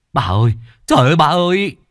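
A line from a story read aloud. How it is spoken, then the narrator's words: Crying. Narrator (Vietnamese): khóc lóc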